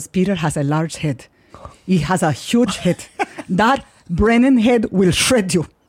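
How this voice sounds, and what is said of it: Spot-on Colombian accent impression. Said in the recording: “Where Latin American is she? ... She's Colombian. ... Your accents are always so spot on. Your impressions are the fucking”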